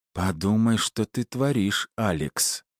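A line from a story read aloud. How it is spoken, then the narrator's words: Very coaxing young woman. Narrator (Russian): очень вкрадчиво произнесла девушка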